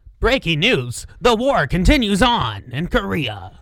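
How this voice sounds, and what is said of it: Old-time radio news announcer voice. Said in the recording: “the radio voice isn't quite the transatlantic, but almost ... the accent that like every news anchor and radio guy had like from the 20s to the 50s”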